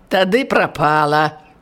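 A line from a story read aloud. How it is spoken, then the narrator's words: Guileless laugh. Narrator (Belarusian): Прастадушна засмяяўся канвойны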